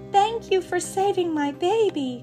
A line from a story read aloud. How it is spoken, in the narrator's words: cried the bird